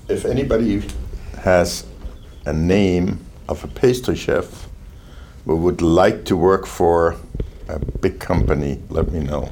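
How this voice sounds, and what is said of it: German accent. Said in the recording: “Accent, German.”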